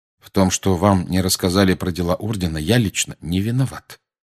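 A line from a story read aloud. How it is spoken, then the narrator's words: Calm. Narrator (Russian): спокойно проговорил Сириус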